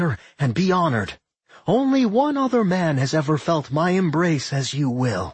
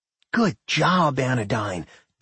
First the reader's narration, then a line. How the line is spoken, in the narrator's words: Doc murmured in her head, his mind sound and sane again